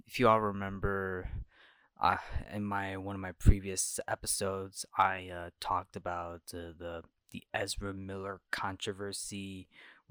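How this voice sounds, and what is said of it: Quiet, low voice. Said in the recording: “speaking in a very low voice, well, because I'm recording this late at night, so that's why my voice is sounding like that”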